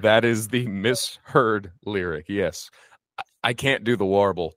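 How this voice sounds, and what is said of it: Usual voice. Nothing is said of it.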